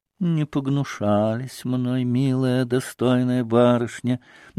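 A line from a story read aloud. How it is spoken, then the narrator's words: Joyful singsong drawl. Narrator (Russian): нараспев протянула Грушенька все с той же милой радостной улыбкой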